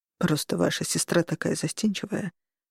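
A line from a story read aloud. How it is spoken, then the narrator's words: Mumbling. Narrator (Russian): пробормотал он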